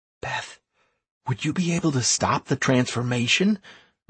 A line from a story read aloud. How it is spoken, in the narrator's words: I asked the priestess in a whisper